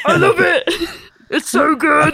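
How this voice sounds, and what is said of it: Imitates another person's excited voice. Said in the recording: “I can only do an impression of Rosie being excited.”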